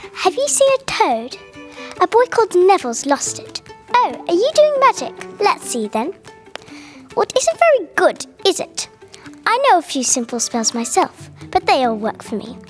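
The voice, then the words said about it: Uncanny Hermione Granger character impression. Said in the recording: “I can do a Hermione impression. ... an uncanny impression of Hermione Granger from the Harry Potter series”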